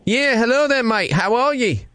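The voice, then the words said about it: Put-on Australian accent. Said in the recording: “using my Australian accent”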